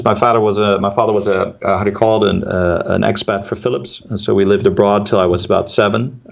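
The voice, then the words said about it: American English accent. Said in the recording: “I've got an American accent”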